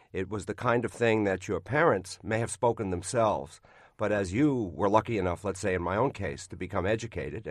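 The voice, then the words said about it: Brooklyn accent. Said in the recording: “the Brooklyn accent, it seems out of place in laid-back San Francisco”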